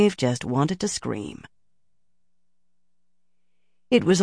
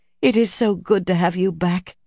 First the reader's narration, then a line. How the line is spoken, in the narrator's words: laughed